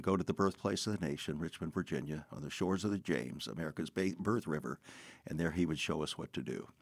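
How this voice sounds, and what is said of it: Polished radio announcer voice. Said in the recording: “everyone can tell you have a radio voice.”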